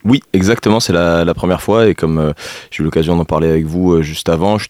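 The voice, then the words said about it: Lilting southern French accent. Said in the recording (French): “je suis originaire du sud de la France, il paraît que ça s'entend encore un petit peu ... il y a un peu l'accent chantant”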